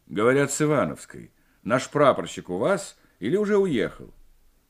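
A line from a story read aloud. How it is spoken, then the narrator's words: Feigned commanding bass. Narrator (Russian): спросил напускным командирским баском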